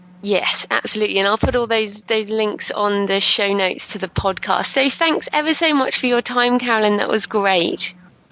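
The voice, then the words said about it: Australian English accent. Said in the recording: “I love your accent ... I'll feed off that accent ... I know it's not an accent in Australia, but it is here.”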